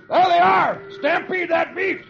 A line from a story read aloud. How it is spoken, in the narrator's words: One of the men shouts